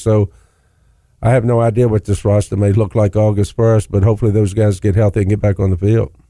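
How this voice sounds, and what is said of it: Rural Virginia accent. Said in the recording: “you may have noticed that accent. grew up in a part of Virginia that sits between Roanoke and Charlottesville ... everybody from that area kind of talks like that”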